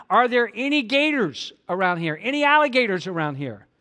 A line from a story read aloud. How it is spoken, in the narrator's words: the tourist yelled out to him